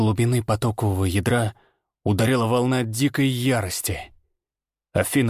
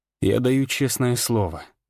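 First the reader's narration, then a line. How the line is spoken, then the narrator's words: Calm reply. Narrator (Russian): ответил спокойно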